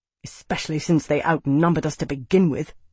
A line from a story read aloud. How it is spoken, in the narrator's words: the captain spat